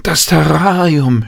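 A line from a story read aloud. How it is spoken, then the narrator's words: Crying out. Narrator (German): schrie Jan auf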